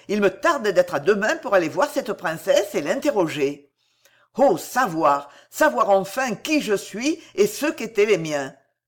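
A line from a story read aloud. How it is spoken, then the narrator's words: Exclamation. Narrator (French): s'écria El Torero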